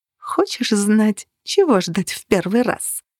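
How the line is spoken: Quiet, almost inaudible. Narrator (Russian): Теперь она говорила тихо, почти неслышно

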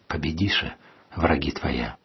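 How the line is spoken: Quiet speech. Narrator (Russian): тихо сказал

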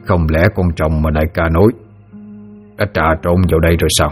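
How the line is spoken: Muttering. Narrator (Vietnamese): tên kia vừa lẩm bẩm

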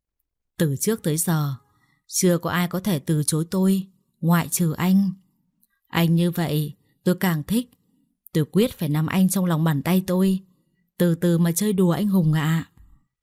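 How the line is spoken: Smiling, delighted. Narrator (Vietnamese): Đào lại mỉm cười, cô ta thích thú nói

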